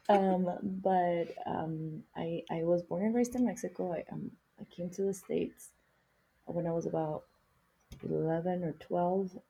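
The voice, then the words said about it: Non-native English accent. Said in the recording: “English is my second language, as you can probably tell as well, because we both have accents”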